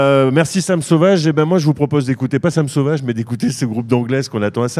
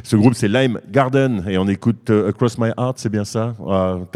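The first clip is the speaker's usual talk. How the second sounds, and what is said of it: English accent on English title. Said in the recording (French): “T'as vu mon accent, il est beau”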